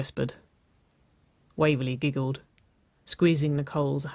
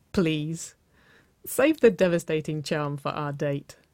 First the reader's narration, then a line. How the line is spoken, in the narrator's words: Waverly chuckled